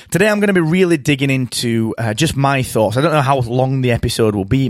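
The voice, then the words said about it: Croaky, tired voice. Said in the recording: “apologize for my voice. ... It's a little croaky. ... my voice is is getting tired”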